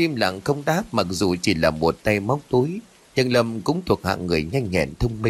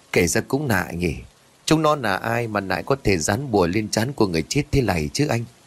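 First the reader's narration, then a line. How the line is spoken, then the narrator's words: Suspicious question. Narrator (Vietnamese): Thằng An mặt khẽ cau lại nghi hoặc rồi hỏi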